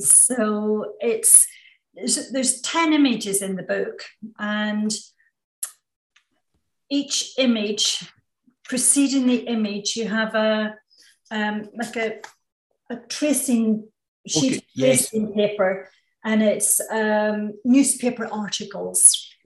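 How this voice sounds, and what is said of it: Northern Irish accent. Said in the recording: “in Northern Ireland. Which you can probably tell from my accent, which is where I'm from”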